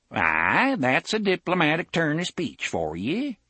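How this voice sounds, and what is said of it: Broad regional accent. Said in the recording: “said in a broad mage's accent”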